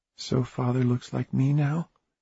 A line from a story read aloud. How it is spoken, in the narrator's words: she said quietly